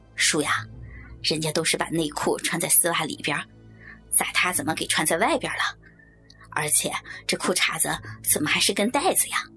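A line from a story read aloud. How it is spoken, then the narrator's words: Plain. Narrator (Chinese): 说着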